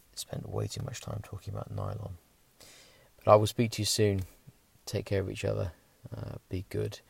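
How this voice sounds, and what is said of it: Tired, worn-out voice. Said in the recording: “as you can probably hear in my voice, I am done for the day. So I'm going to go and crawl into bed”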